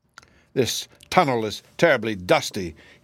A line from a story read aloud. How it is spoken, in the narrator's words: growled angrily